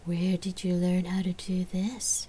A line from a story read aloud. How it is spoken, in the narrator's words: Gabrielle asked in a breathy voice